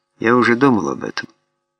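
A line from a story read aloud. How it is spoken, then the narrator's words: Calm reply. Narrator (Russian): спокойно ответил Питер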